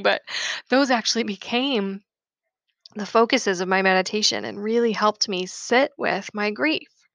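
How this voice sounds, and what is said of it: Tearful voice, cracking with emotion. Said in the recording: “I'm tearing up a little bit, so I'm sorry if my voice is cracking”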